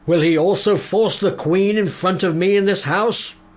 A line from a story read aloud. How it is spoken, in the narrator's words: the king bellowed